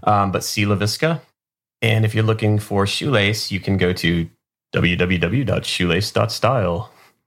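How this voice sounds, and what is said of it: Put-on radio announcer voice. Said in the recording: “That's my best radio voice.”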